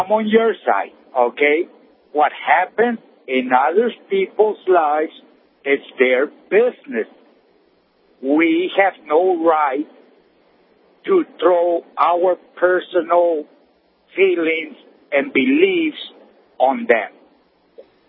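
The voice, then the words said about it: Slight Hispanic accent. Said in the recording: “detect a slight accent. ... I'm Hispanic.”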